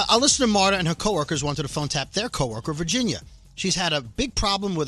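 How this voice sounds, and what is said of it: Usual voice. Nothing is said of it.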